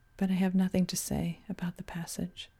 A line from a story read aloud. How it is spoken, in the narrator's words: repeated softly